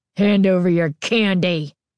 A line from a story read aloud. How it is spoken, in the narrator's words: Carly Beth snarled, surprised by the vicious tone in her voice